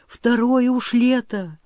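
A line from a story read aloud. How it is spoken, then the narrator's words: Breathed out. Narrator (Russian): выдохнул Григорий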